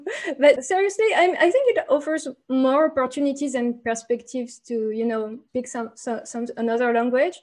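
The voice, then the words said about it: Non-native English accent. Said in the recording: “my awful accent”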